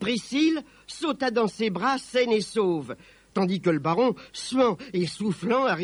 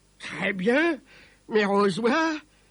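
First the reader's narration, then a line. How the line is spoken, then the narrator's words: Growling. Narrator (French): gronda-t-il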